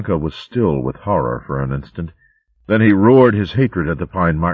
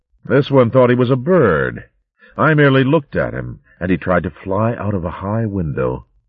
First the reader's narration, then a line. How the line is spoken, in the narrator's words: The mad-eyed emperor laughed coldly and said